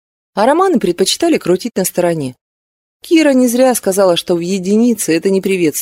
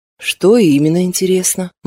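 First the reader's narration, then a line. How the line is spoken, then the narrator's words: Gloomy question. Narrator (Russian): мрачно спросила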